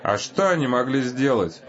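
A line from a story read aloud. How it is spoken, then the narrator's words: Plain. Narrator (Russian): сказал я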